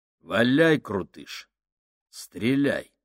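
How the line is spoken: Firm, calm, hiding fear. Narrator (Russian): произнес он твердым, спокойным голосом, хотя внутри все заледенело от страха

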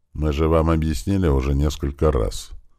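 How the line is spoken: Sighing young man. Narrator (Russian): вздохнул один из парней из экипажа крота

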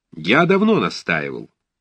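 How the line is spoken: Irritated speech. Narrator (Russian): говорил Николай раздраженно

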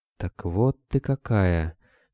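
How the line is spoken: Whisper. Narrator (Russian): шепнула Даша

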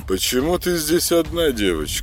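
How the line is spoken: Monotone indifferent robot voice. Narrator (Russian): спросил ее один из ботов монотонным, безразличным голосом

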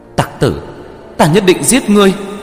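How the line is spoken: Ashamed furious loud shout. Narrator (Vietnamese): xấu hổ giận dữ đến mức muốn ngất đi, lớn tiếng quát

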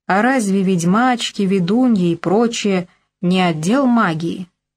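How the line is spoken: Plain. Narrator (Russian): спросил Яныш

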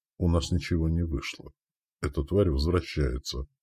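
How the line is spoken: Whispered. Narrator (Russian): прошептал он

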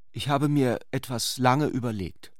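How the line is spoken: Hesitant. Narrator (German): fuhr sie zögernd fort

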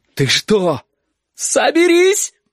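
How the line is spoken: Shout. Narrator (Russian): прокричала Сашка

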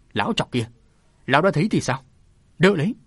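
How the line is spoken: Villain's sudden shout. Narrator (Vietnamese): tên ác nhân đó chợt quát lên

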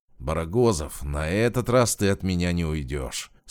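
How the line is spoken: Through gritted teeth. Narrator (Russian): сквозь зубы процедил оперативник

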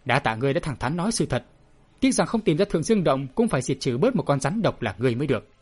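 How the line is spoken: Harsh loud voice. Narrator (Vietnamese): Chàng gằn giọng nói to

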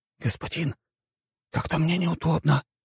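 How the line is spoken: Lad whispering in ear. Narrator (Russian): прошептал мне паренек на ухо

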